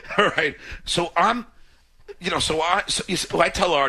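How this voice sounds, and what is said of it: Usual voice. Nothing is said of it.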